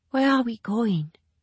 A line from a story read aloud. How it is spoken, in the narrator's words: Min asked in a whisper